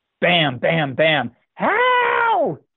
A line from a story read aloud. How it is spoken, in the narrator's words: screamed